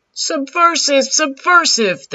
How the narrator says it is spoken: shouted

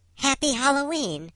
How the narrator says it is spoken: she yells out

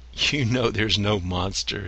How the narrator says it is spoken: laughed

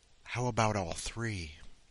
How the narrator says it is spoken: Intrigued, she whispers in his right ear

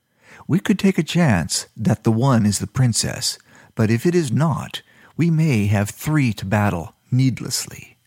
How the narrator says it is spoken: Sharika said

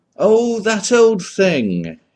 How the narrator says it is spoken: exclaimed

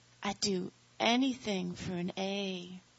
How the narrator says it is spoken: she breathed

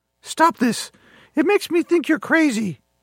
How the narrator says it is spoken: Mickey gasped

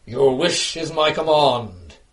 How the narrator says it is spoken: intoned

